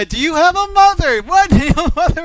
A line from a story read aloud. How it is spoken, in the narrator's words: she's yelling at this guy